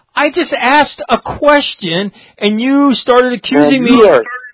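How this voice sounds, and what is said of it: Yelling. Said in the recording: “you're yelling”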